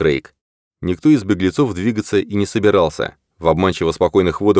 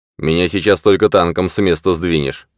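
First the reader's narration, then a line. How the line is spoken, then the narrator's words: Grumbling. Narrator (Russian): пробурчал Ковальски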